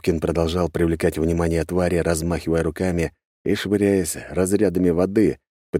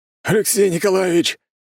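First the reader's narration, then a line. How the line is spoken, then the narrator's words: Shout. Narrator (Russian): крикнул мне Григорий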